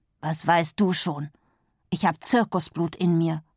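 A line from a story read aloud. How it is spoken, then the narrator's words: Growled. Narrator (German): knurrt Pulcinella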